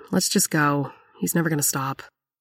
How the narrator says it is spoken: Cheryl sighed and said

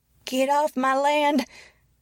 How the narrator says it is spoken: shouted the woman, her voice old and shrill

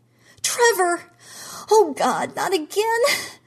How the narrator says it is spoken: Jean saw the blank look come over his face and screamed

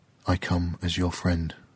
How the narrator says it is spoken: Kua'ai whispered to the tree

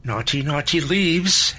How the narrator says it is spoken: she added in the little girl voice she used from time to time

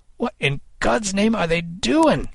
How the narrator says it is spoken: Kid cried

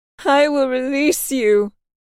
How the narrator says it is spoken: Cynthia yelled, her back still to the crowd and her shoulders heaving as she cried

